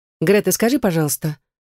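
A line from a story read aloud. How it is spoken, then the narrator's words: Soft. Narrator (Russian): мягко обратилась к ней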